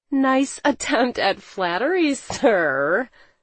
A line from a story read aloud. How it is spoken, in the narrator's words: I laughed